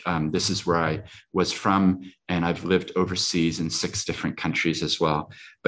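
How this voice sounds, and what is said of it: Speaks with an accent. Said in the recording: “I have an accent, but don't believe accents”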